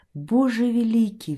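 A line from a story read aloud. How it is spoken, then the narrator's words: Pleading. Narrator (Russian): взмолился он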